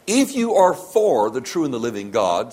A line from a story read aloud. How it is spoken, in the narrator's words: said Moses